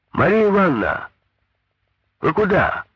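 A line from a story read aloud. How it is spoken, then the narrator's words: Shouted. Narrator (Russian): крикнул Петя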